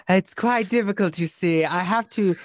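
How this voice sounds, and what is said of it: Character voice with put-on accent. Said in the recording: “who should be talking like this. Yes, I decided I would go with an accent.”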